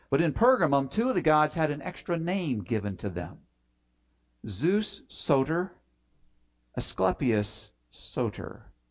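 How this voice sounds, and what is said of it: Strong American accent on Greek words. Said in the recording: “I'm saying that with a horrible American accent”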